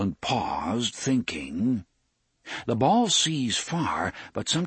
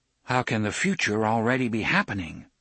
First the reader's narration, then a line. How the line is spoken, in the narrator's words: Alain asked